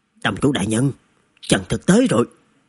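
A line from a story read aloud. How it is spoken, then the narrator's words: Hurried, lowered voice. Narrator (Vietnamese): một đệ tử Từ gia vội vã hạ giọng báo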